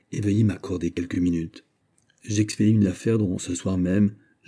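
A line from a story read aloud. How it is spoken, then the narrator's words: Said quietly. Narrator (French): dit Mazarin tout bas à Louis XIV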